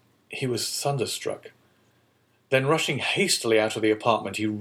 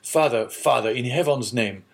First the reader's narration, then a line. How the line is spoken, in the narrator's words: exclaimed the young man